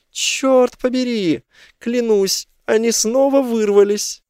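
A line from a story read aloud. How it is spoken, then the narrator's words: Shouting. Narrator (Russian): Клэр закричала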